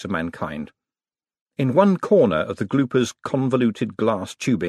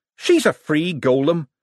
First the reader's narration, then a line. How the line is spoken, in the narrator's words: said Adora Bell sharply